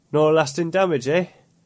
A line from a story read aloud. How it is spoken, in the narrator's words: There was a quaver in Adrian's voice